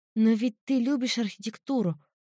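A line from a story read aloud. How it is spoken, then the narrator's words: Pitiful voice. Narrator (Russian): жалким голосом произнесла я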